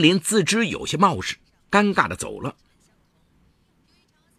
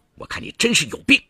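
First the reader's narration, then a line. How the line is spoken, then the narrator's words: Angry cursing. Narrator (Chinese): 戚建军怒气冲冲……骂了一声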